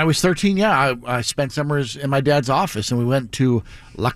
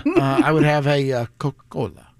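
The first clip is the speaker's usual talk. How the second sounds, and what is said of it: Saying Coca-Cola in a foreign accent. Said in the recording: “Don't say Coca-Cola in a foreign accent”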